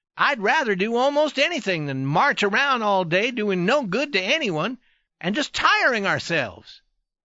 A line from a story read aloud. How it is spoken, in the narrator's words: cried the youth, still nervous